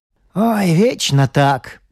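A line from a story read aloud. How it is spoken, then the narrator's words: Grumbling husband. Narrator (Russian): проворчал муж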